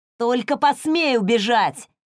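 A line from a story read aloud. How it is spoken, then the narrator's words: Shout. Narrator (Russian): крикнул он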